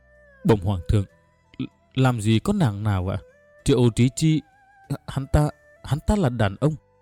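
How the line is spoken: Trembling voice. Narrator (Vietnamese): Cao Lương Thành run run

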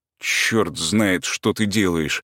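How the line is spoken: Displeased mutter. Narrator (Russian): пробормотал я недовольно

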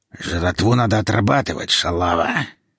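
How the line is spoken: Nasty hoarse voice. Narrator (Russian): сказал он своим противным хриплым голосом

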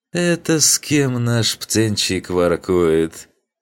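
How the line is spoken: Mocking question from older student. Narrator (Russian): Глумливым голосом поинтересовался один из 3 старших учеников

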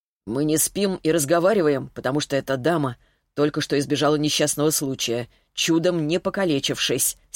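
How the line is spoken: Angry curt retort. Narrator (Russian): сердито отрезал Ермолаев

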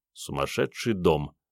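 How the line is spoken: Mumble. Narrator (Russian): пробормотал Андрей

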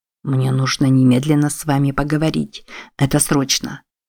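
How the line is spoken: Whisper. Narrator (Russian): Джошуа Пилбим прошептал

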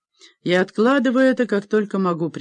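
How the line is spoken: Laughing confession. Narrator (Russian): признался, смеясь

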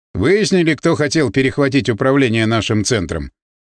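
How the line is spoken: Plain. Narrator (Russian): спросил Маширов

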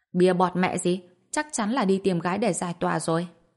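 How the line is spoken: Mocking. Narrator (Vietnamese): một người khác không khỏi chế nhạo

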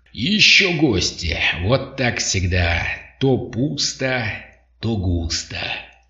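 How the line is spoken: Guttural speech, bursts of laughter. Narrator (Russian): Он продолжил речь на гортанном языке, то и дело взрываясь хохотом

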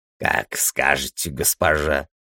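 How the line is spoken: Hoarse voice. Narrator (Russian): раздался хриплый голос

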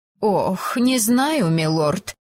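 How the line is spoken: Sighing. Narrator (Russian): вздохнула экономка

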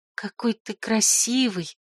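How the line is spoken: Whisper. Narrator (Russian): шепнула зверю

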